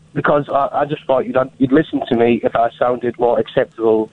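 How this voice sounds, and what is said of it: Scottish speaker faking English accent. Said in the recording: “Why are you doing that accent? ... You sound like a Scotsman trying to do an English voice.”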